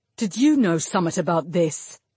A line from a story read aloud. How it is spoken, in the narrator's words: Rodri growled